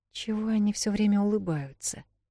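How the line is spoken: Whispered question. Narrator (Russian): шепотом спросила Вэл

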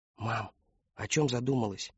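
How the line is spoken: Whisper. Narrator (Russian): прошептал Кристофер

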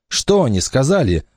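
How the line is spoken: Joyful question. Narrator (Russian): радостно спросил Вася

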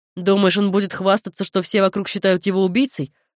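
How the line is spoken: Snorting. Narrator (Russian): фыркнул Кэл

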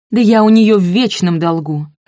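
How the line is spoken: Barked. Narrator (Russian): рявкнула Айви

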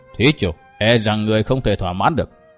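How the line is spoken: Suppressed anger, cold smile. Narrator (Vietnamese): Lão tức giận run cả người, nhưng vẫn gượng vẻ tự nhiên, cười nhạt với Độc Trung Chi Độc

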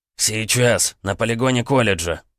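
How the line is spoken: Hoarse rasp. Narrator (Russian): прохрипел он

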